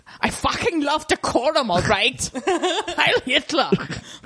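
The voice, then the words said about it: Put-on German accent. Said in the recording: “That's like when I do my German accent... Everything in your German accent”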